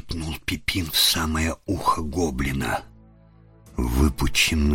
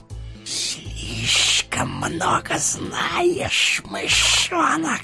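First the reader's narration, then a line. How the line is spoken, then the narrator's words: Menacing hiss. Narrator (Russian): прошипел он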